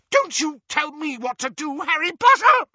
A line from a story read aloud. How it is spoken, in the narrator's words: she screeched